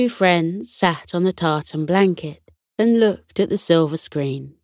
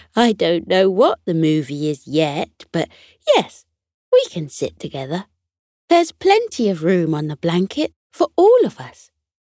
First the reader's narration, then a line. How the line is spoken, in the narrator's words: chuckled softly and said